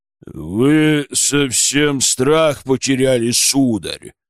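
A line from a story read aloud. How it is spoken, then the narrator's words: Low bass voice. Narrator (Russian): произнес низким басом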